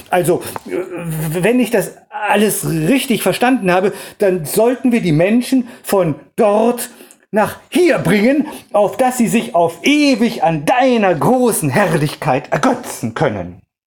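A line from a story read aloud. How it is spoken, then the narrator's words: Stammered, confused. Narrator (German): stammelte der irritierte Heilige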